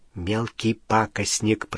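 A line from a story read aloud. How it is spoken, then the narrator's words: Whisper. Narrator (Russian): прошептал Рон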